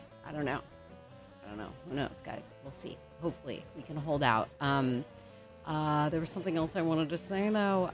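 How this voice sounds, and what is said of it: Strained, fading voice. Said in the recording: “it seems like I'm losing my voice.”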